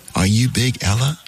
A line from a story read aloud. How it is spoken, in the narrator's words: he asked